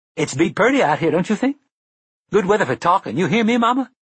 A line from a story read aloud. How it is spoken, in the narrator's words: Detta said brightly